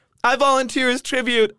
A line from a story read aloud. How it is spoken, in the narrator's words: I yell